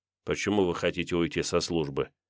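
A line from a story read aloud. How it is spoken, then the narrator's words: Quiet question. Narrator (Russian): тихо спросил Николай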